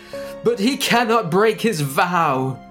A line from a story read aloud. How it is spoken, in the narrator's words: she cried desperately